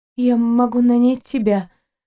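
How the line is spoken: Trembling young woman's voice. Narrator (Russian): дрожащим голосом проговорила девушка

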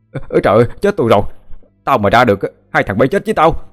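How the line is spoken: Panicked, struggling scream. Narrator (Vietnamese): Cậu hai giãy giụa vừa la lên thất thanh

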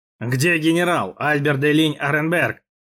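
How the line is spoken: Growled. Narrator (Russian): прорычал Спинола

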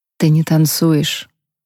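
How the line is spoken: Whisper. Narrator (Russian): прошептал он

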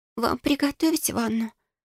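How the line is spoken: Unhappy, confused whisper. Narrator (Russian): Несчастным голосом прошептала она, не зная, как реагировать на столь странное заявление

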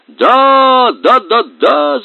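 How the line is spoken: Shouting. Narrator (Russian): закричал главный шляпоголовый

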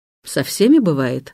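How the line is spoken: Dry. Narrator (Russian): говорит он сухо

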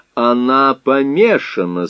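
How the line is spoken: Plain. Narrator (Russian): сказал он

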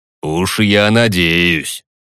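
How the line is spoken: Chuckle into mustache. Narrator (Russian): хмыкнул в усы барон

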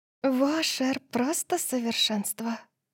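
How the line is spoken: Whisper, then guilty giggle. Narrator (Russian): прошептала София, а затем хихикнула, как будто ей не следовало этого говорить

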